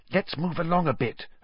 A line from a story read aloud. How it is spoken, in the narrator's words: Hermione whispered